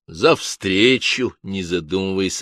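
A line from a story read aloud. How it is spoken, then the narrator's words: Plain. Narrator (Russian): ответил комиссар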